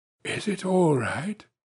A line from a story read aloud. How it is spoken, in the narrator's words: The count whispered